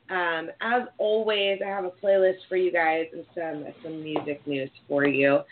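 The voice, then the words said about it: Congested voice from a cold. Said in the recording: “my voice is a little bit better. But it's still not 100%... I'm still having this like lingering cold... a little sinus infection... why I sound like this”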